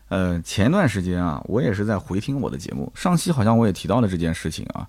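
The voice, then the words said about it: Mandarin with Nanjing local accent. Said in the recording (Chinese): “很多人听我的节目还是能听出这个南京本地的口音”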